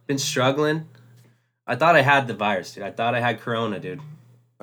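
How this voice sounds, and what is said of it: Sick-sounding voice. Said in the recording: “I definitely got sick, bro... You could probably hear it in my voice.”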